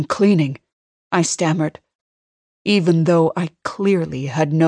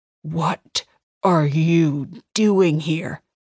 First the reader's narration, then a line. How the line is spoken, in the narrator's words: he growled